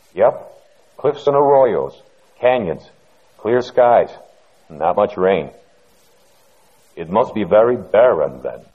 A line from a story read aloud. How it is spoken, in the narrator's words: Bent stiffly over a waist-deep gully, he said